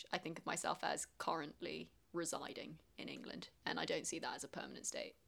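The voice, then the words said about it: Strong English accent. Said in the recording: “I've got quite a strong English accent”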